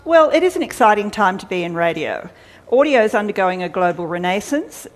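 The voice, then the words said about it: Slightly scratchy tired voice. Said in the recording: “my voice is getting a bit scratchy”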